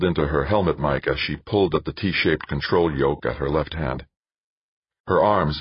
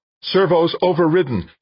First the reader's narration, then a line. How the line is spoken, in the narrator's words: she said, her voice rising